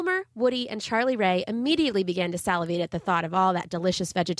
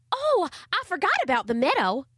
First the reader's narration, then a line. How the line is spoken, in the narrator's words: exclaimed Charlie Ray